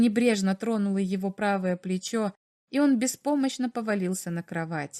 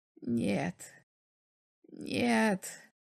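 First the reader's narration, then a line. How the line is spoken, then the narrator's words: Repeated whisper. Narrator (Russian): повторял он шепотом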